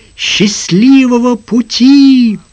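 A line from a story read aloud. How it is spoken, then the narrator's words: Crowd shouting. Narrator (Russian): Оставшиеся кричали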